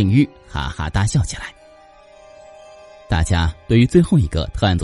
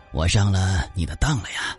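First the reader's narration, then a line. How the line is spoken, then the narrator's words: Sighing speech. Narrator (Chinese): 梁教授叹了口气，就说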